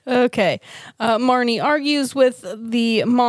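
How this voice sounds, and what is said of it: Usual voice. Nothing is said of it.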